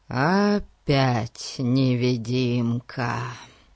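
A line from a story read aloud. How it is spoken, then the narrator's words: Groaning. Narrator (Russian): Простонал Фати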